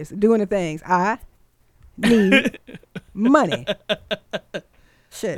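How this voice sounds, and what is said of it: Imitates a movie character's voice. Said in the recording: “In my best how high voice”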